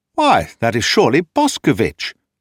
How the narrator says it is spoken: Thorndyke exclaimed in a tone of surprise

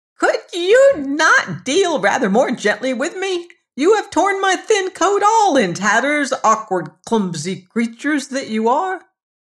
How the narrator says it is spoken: When the dwarf had recovered from his first fright, he called out in his shrill voice

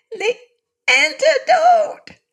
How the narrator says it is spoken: she screamed

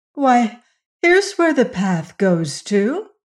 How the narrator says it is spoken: she exclaimed

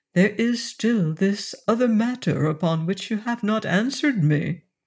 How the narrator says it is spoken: said very gently

